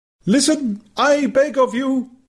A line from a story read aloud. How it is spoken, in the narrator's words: cried the savage earnestly